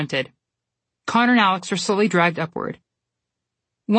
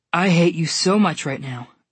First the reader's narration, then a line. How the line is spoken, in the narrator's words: Connor said between heavy pants